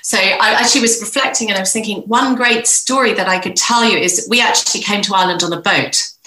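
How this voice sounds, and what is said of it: Mixed, hard-to-place accent. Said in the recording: “As you can hear by my accent, I'm a bit of a mongrel”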